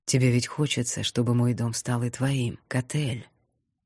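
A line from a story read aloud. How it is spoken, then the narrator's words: Insinuating whisper. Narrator (Russian): Вкрадчивый шепот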